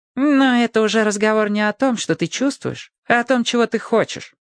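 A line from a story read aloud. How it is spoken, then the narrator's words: Calm objection. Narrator (Russian): спокойно возразил Вух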